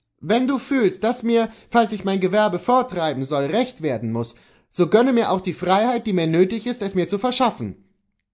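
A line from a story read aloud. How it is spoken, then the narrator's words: Called out. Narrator (German): rief Kohlhaas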